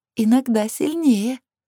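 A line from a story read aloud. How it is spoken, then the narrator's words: Giggling. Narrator (Russian): хихикнула Лилит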